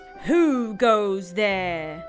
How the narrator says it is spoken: a loud voice bellowed

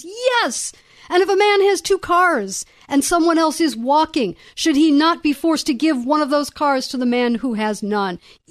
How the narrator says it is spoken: the crowd screams

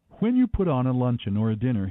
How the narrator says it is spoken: he said

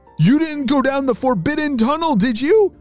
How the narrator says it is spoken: shouted Micah

